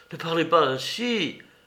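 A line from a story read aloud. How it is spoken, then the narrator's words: Terrified murmur. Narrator (French): murmura Chanito avec épouvante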